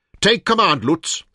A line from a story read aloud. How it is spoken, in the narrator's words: shouted